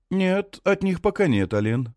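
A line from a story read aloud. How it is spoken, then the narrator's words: Brisk, cheerful. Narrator (Russian): бодро отвечает Хенрик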